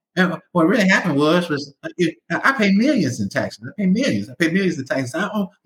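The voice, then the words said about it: Funny-voiced Donald Trump impression. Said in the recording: “Trump started talking with that funny voice of his”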